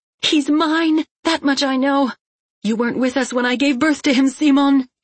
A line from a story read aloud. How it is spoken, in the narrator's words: she shouted